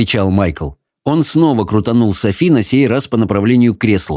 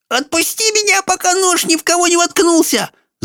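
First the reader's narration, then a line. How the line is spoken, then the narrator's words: Strangled squeak. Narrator (Russian): сдавленно пропищала Софи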